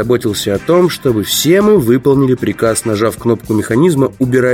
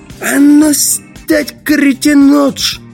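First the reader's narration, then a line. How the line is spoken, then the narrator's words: Roared. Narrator (Russian): он взревел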